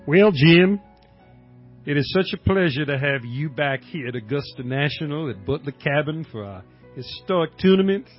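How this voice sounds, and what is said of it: Imitates another person's southern voice. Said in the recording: “my southern ass, my cracker ass ... me, Hootie Johnson”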